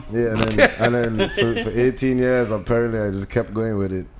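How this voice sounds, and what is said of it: Softened Caribbean island accent. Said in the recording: “this fake accent ... This is my Americanized accent ... when you go home, it's like really thick ... islanders”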